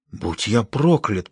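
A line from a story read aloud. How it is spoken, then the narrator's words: Whispered. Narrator (Russian): прошептал Расти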